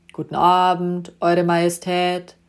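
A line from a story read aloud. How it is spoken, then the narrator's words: Bored, in unison. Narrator (German): sprachen die drei gelangweilt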